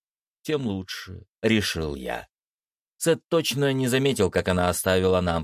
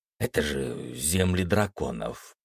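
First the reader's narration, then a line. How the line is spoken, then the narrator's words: Whisper. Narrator (Russian): прошептал я Даше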